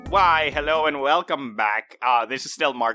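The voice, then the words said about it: Sinister, villainous put-on voice. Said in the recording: “I'm just using this nefarious voice”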